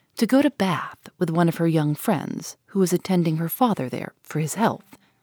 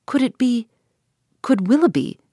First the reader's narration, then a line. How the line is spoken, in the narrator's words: cried Eleanor